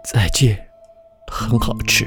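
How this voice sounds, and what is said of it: Quiet, softly spoken line. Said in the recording (Chinese): “小声的说着”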